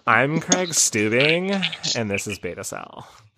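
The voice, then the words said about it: Exaggerated California teen accent. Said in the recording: “obnoxious, like, California 19 or like early 2000s accent ... He sounded like a high schooler who was at the mall shopping at like Hollister.”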